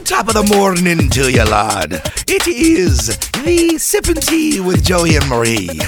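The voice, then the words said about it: Attempted Irish accent. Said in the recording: “I'm not good at that ... well, not a good imitation, but I try to do a good imitation ... the Irish”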